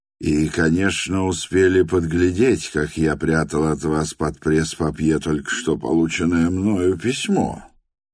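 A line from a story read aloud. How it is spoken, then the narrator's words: Calm. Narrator (Russian): спокойно проговорил Николай Всеволодович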